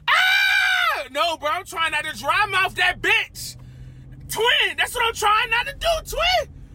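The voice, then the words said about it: Yelling loudly. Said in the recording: “if I'm yelling in your headphones ... When I start yelling, just turn me down a little bit”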